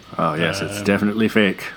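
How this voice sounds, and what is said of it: Odd put-on character voice. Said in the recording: “do that voice ... That's odd ... Your voice really freaks me out”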